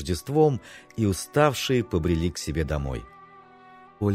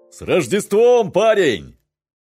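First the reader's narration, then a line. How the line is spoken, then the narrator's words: Stranger shouting. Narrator (Russian): крикнул один из незнакомцев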